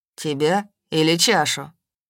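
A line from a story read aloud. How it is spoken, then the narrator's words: Gloomy clarifying. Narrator (Russian): мрачно уточнил Кир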